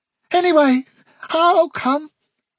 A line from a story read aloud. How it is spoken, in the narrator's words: he repeated in a very nervous voice